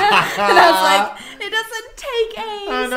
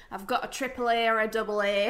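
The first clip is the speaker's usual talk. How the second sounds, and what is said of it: Northern English accent. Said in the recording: “that's not my dad's accent at all. That's like a northern”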